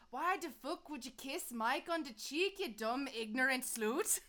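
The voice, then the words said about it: Poor put-on Scottish accent. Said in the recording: “Can you do a Scottish accent by any chance? ... That was real bad”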